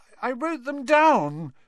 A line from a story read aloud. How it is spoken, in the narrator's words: Neville was saying tearfully